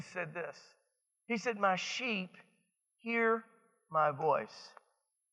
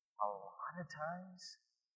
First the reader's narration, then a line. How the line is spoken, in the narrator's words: he whispers